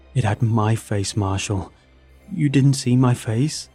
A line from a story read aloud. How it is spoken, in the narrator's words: John pleaded